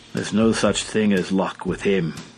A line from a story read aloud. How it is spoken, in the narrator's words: declared the inspector, who always spoke of Lupin in a solemn tone